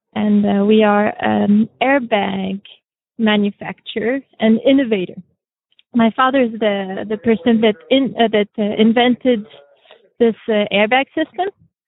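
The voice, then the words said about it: French accent. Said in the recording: “the lovely, lovely accent you're going to hear is French ... It's beautiful ... French accent”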